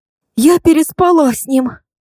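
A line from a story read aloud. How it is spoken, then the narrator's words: Breathed out. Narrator (Russian): выдохнула моя подруга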